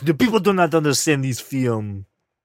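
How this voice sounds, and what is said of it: Weak put-on French accent. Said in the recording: “That was my French accent. It wasn't very good.”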